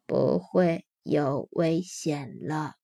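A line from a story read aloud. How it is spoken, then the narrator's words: Gentle slow alien voice. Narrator (Chinese): 德拉夫拉星人用温柔的声音慢慢的说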